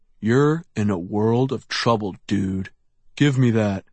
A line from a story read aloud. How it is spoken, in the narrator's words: he said through gritted teeth